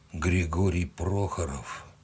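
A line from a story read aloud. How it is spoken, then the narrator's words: Barely audible. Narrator (Russian): еле слышно спросил он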